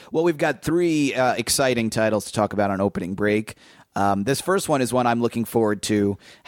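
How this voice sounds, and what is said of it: Hoarse, laryngitis-affected voice. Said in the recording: “lost my voice... You can hear I'm a little hoarse, a little laryngitis-y.”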